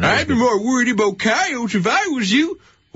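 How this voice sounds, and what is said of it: Old prospector character voice. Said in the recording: “Ooh, I do a good old prospector.”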